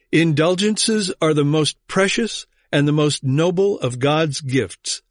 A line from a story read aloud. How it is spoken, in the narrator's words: said Tetzel